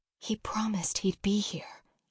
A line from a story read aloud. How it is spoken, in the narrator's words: Mom whisper